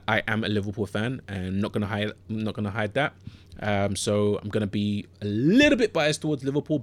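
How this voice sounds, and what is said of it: London or Southern English accent. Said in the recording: “you don't sound Scouse. That's a notoriously London or Southern England accent.”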